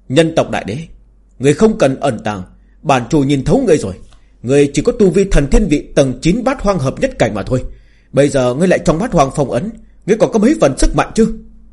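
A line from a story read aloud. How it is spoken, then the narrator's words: Arrogant loud laughter. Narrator (Vietnamese): Tà chủ cuồng vọng cười lớn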